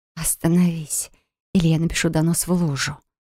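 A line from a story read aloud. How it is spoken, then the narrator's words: Strained hoarse wheeze. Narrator (Russian): просипел я, пытаясь высвободить руки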